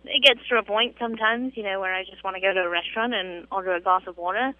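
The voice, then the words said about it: British English accent. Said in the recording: “that English accent that you have there ... the most British terms ... my accent”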